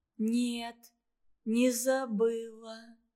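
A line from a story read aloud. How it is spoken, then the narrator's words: Slow, flat, detached. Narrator (Russian): медленно и безучастно ответила Наташа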